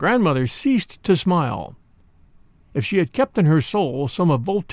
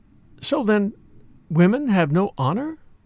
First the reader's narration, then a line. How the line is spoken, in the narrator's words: The young girl, turning very pale, faltered out